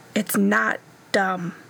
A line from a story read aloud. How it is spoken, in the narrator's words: he said fiercely